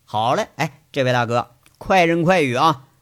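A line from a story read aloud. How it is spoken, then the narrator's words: Laughing. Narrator (Chinese): 杨伟啊，笑着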